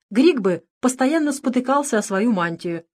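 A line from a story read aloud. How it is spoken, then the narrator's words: Laughing. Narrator (Russian): смеялся автор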